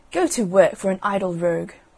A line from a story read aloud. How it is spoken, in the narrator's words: one of them said crossly